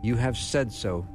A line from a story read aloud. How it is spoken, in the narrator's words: Jesus replied